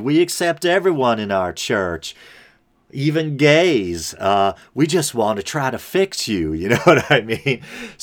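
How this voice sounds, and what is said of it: Put-on Southern US accent. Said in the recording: “I automatically go to a Southern accent there. That was kind of like a weird Dr. Phil”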